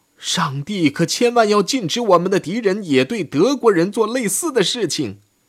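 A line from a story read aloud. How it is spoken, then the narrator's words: Startled shout. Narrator (Chinese): 大吃一惊的维斯里塞尼喊道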